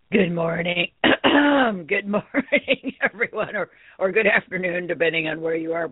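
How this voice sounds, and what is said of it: Hoarse, froggy voice. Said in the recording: “Pardon my voice. I'm still a little froggy from my sickness and still coughing a little bit”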